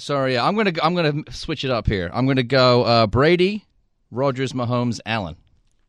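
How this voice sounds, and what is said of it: Strong English accent. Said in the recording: “your accent has gotten stronger over the time that I've known you ... I don't sound this English when I talk normally ... You talk as English as you ever have”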